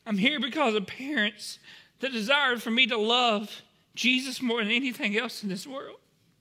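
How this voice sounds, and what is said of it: Emotional, voice close to tears. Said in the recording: “I'm so sorry that I'm getting emotional”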